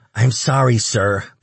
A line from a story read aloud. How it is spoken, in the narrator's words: the little shit stammered